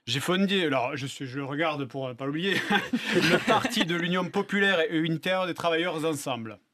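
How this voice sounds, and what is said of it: Southwestern French accent. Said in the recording (French): “un petit accent qui nous vient du Sud ... Du Sud-Ouest”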